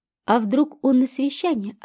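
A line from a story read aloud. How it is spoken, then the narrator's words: Plain. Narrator (Russian): ответила Катя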